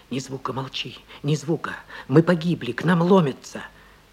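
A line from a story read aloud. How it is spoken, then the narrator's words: Trembling whisper in ear. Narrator (Russian): на ухо трепетный голос шептал мне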